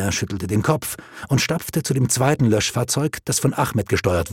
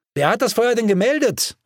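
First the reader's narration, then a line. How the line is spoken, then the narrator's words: Calling after someone. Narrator (German): rief ihm Bruneau hinterher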